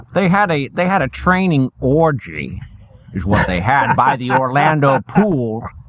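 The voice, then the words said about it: Imitates another person's voice. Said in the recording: “did the Sean Connery voice”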